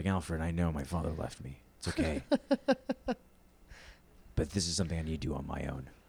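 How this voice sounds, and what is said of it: Deep, heavy Batman character voice. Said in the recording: “a little bit more heavier ... when I go deeper, but like I can feel the vibration of it ... I'm Bruce Wayne ... Your boy's going to be Batman”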